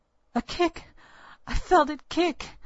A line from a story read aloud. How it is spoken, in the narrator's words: I clutched my belly and cried